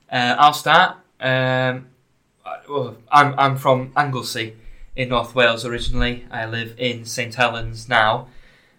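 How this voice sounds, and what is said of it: Welsh and Scouse accent. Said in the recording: “my accent is Welsh. Welsh slash Scouse. slash Yorkshire as well”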